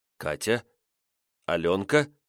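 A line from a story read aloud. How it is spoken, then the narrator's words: Uncertain, unfamiliar voice. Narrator (Russian): Неуверенно отвечаю и не узнаю свой голос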